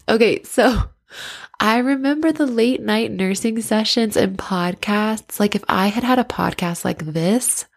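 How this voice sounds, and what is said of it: Congested, nasal voice. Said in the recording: “I have like a sinus blockage, so I'm all nozzly, nasally”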